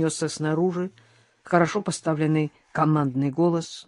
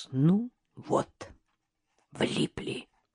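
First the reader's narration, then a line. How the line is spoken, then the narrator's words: Whispered. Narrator (Russian): прошептала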